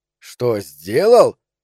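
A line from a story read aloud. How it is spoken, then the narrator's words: Terrible shout. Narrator (Russian): ужасным голосом выкрикнул он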